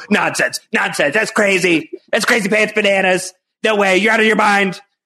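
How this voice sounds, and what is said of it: Imitates another person's voice. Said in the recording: “That's my Kevin impression. It needs some work. ... It's not good.”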